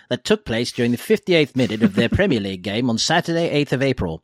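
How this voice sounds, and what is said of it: Old newsreel announcer voice. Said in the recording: “put on my Path News voice,”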